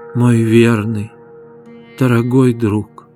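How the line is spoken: Weak voice. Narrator (Russian): произнесла слабым голосом

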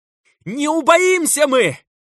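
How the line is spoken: Frenzied shout, frail man. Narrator (Russian): закричал в ответ тщедушный отец Микаил, окончательно слетевший с катушек и потерявший последнее представление об окружающей его реальности

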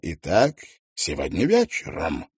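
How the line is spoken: Fervent exclamation. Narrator (Russian): горячо воскликнул

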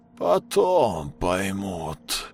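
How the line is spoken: Strange doubled voice. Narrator (Russian): каким-то двойственным голосом произнес он, как будто у него их два

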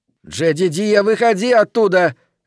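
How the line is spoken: Shouting. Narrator (Russian): кричала она

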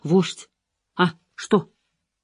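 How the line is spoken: Whispering in ear. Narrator (Russian): Не она шептала ему на ухо

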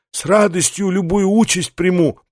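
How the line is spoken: Hoarse. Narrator (Russian): прохрипел Верховный

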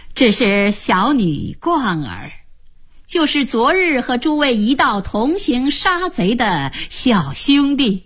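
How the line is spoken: Slight smile. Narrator (Chinese): 荀松微微一笑，向大家说

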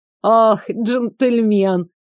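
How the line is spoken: Pleased chuckling grandmother. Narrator (Russian): довольно хмыкнула бабушка

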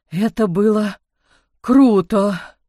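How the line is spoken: Sudden trembling voice. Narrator (Russian): вдруг сказал он дрожащим голосом

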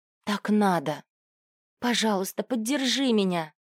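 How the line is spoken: Breathless exhale. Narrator (Russian): Мил выдохнул

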